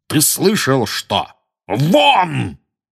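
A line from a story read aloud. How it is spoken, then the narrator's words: Loud startling bark. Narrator (Russian): гаркнул дядя Вернон так, что даже тетя Петунья и Дадли подскочили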